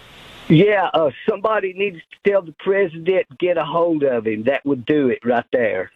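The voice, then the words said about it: Tennessee Southern accent. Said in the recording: “I do love that Tennessee accent. You can't pretend to be from Tennessee. Either sound like that or you're not from Tennessee.”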